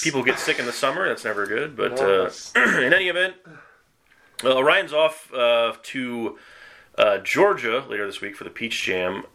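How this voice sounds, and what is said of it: Congested, sick-sounding voice. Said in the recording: “I've got a cold.”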